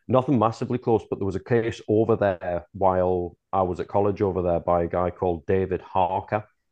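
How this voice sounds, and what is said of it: Mixed, hard-to-place accent. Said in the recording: “this weird accent, because I've been moved all around ... nobody can tell where I'm from”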